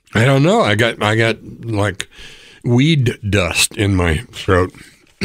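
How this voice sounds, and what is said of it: Hoarse, voice nearly gone. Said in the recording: “my voice is gone.”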